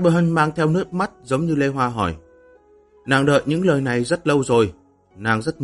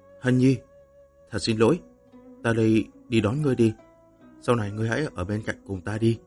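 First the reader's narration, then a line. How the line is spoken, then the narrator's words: Gentle, tender. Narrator (Vietnamese): Lăng Tiếu nhẹ nhàng nói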